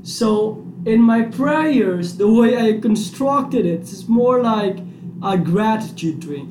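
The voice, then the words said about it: Speaks English with an accent. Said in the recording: “Sorry for my accent.”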